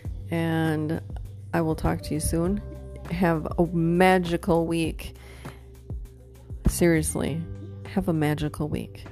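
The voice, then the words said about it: Tired, fading voice. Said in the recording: “I'm exhausted. ... I'm losing my voice and I'm getting tired.”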